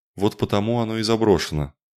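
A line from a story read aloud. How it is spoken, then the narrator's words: Grumbling. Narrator (Russian): проворчала ведущая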